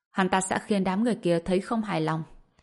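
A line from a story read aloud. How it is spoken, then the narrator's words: Cold. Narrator (Vietnamese): Tùng Lệ Nhã đã hiểu, cô ta lạnh lùng nói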